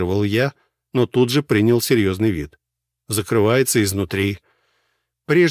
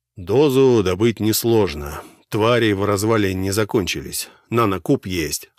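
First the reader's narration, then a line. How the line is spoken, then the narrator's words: Plain. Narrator (Russian): ответил Гвидон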